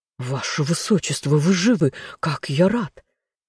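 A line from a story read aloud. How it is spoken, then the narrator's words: Breathless. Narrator (Russian): выдохнул мужчина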